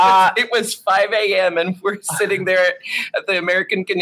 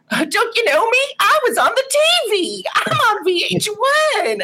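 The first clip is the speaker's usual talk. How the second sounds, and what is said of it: Imitates another person's voice. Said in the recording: “my Lady Bunny impression... our Lady Bunny impression”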